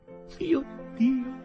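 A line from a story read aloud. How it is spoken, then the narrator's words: Sobbing. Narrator (Italian): singhiozzò Lizzie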